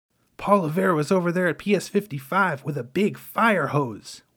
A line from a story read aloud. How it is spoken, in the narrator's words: Juan exclaimed between breaths